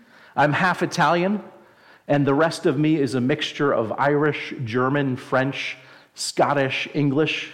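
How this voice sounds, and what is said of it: New Jersey accent. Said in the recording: “I'm originally from New Jersey, if you can't tell from my great accent.”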